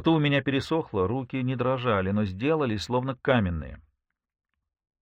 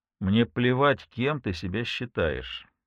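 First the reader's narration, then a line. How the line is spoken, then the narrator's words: Even flat voice. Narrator (Russian): ровным голосом сказал он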